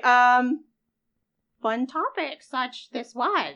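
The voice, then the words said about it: Yoda-style character voice. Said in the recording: “do a Yoda impersonation”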